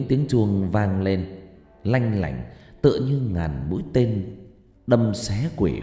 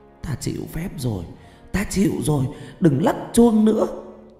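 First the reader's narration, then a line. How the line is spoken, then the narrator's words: Eerie moaning from bones. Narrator (Vietnamese): Từ trong khối xương có tiếng rên rỉ rờn rợn phát ra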